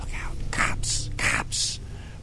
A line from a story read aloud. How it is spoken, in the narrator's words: Riff laughed at me again